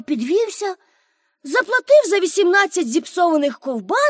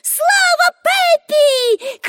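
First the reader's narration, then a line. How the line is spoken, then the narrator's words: Shouted. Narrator (Ukrainian): крикнули Томі й Аніка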